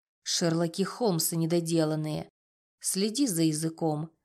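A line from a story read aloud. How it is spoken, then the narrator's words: Calm, firm warning. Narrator (Russian): спокойно, но твердо предупредил Рома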